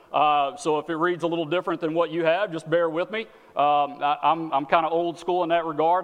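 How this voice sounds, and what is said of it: Texan accent. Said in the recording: “now you've gotten the accent, right? You're getting used to it. I'm from Texas.”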